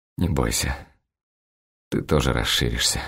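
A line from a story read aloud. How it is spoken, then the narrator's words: Muttered. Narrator (Russian): бормочу я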